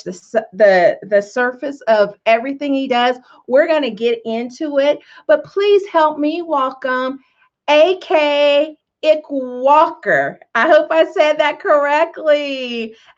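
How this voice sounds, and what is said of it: Speaks with a twang. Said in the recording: “with my twang, sometimes it's hard to pronounce words”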